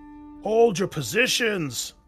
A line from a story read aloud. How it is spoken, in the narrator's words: bellowed Block, though his voice was beginning to crack